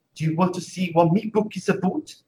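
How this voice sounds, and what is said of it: Imitated Geordie accent. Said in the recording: “An British accent called Geordie, the Geordie accent, and they speak almost like that. It's a very close pronunciation, like a person with a Geordie accent.”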